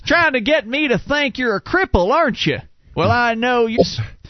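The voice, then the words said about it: Put-on Black Texan woman's accent. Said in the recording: “a black woman from Texas, according to your accent”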